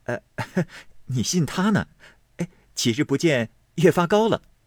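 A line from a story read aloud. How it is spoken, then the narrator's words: Laughing. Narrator (Chinese): 宝玉笑道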